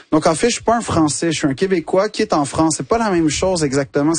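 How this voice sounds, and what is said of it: Québécois French accent. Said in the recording (French): “l'accent québécois ... tu le dis avec cet accent”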